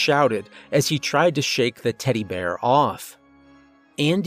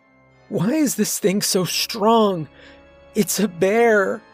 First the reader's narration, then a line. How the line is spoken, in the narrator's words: wailed in tears